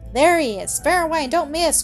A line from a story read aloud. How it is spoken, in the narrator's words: cried Seth